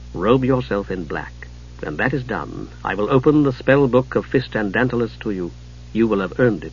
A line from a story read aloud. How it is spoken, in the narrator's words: A voice whispered in Palin's mind